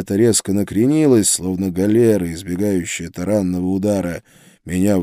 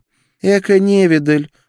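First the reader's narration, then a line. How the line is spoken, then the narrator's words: Snort. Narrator (Russian): фыркнула Гертруда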